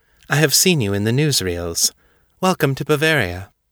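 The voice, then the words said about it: Clear English, faint continental accent. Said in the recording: “She spoke English clearly, with the faint continental accent that said she'd learned it in Europe.”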